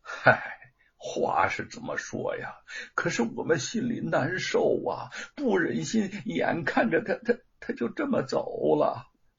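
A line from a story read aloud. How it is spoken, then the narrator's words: Sighing. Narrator (Chinese): 那个歪嘴叹了口气说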